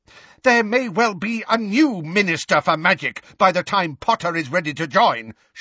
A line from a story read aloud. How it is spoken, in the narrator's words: shouted Professor McGonagall